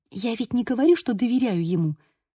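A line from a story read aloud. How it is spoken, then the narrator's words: Whisper. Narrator (Russian): прошептала я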